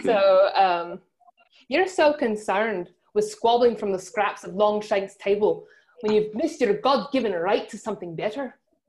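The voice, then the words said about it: Put-on Scottish accent, decent attempt. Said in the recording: “your Scottish accent? ... That's the best I can do. ... It's not bad.”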